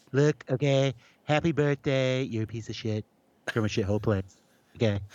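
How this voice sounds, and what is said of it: Donald Trump impression. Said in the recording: “Trump impersonators”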